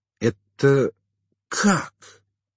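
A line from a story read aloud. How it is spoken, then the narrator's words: Forced out, saleswoman. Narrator (Russian): выдавила продавщица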